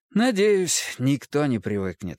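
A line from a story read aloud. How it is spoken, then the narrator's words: Sigh. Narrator (Russian): вздохнул Фрейд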